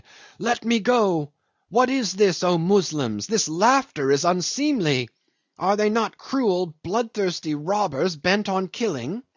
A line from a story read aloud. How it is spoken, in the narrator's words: she struggled and cried